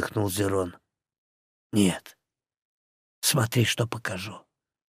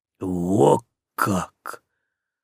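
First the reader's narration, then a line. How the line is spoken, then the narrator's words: Breathed out. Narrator (Russian): выдохнул Зерон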